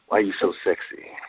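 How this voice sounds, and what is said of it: Exaggerated sensuous seductive voice. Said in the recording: “I'm going to say it in my most sensuous voice.”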